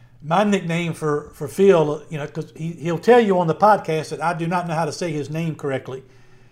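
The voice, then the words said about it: Southern Virginia accent. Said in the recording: “in my Southern Virginia accent, I try to add an extra syllable”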